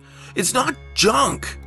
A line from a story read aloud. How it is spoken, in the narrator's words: she cried